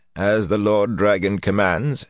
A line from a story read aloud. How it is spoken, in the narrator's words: in that same dry tone